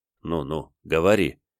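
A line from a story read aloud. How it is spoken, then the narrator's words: Gentle, smiling. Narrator (Russian): ласково улыбнулся властитель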